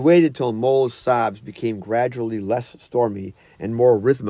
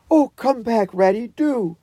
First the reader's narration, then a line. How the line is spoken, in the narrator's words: cried the Mole